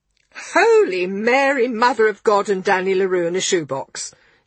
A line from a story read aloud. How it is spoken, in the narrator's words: he exclaimed